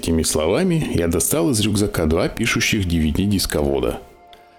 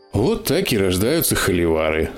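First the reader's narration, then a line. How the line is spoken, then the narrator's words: Sighing. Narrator (Russian): вздохнул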